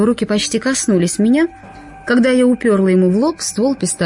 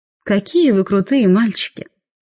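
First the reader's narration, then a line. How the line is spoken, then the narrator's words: Purring. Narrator (Russian): промурлыкала я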